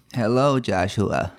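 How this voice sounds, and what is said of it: Put-on fake voice. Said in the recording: “You just start with a fake voice.”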